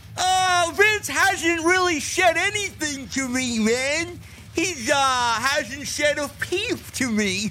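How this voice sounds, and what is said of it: Imitates another person's voice. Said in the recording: “Impersonation of Kevin Dunn”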